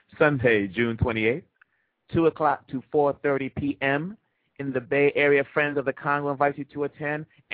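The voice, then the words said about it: Speaks with a slight accent. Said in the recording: “my little accent gets in the way”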